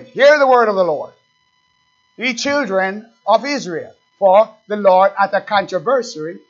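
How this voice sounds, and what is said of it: Jamaican accent. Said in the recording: “That's my Jamaican accent”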